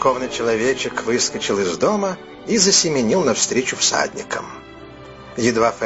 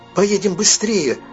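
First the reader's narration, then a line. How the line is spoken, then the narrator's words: Exclamation. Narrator (Russian): воскликнул Савас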